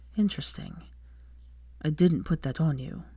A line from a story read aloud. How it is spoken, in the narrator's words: he said quietly